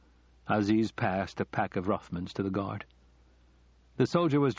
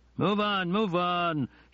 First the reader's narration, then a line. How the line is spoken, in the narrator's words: shouted the first soldier